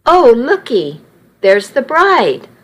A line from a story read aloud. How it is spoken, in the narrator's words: older lady exclaimed